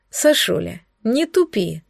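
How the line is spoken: Sorrowful sigh. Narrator (Russian): Горестно вздохнул Корди

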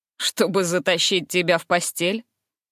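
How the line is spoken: Curious snort. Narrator (Russian): Фыркнула я с любопытством

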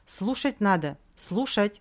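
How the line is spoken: Deep sigh, then shouting. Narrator (Russian): Он глубоко вздохнул и уже закричал

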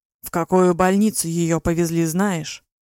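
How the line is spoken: Nearly growling. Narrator (Russian): Чуть ли не рычал

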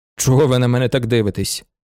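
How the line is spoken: Calm continuing speech. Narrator (Ukrainian): спокійно говорив далі Шуман

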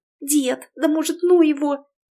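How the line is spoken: Frightened whisper. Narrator (Russian): испуганно зашептала вслед Тоня

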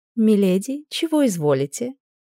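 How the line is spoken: Muffled purring female voice. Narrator (Russian): Промурлыкал за дверью незнакомый женский голос

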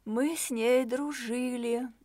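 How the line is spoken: Sighing. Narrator (Russian): вздохнула Кэтрин

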